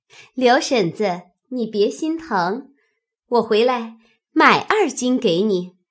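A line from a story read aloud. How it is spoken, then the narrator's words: Laughing. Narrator (Chinese): 口内笑说道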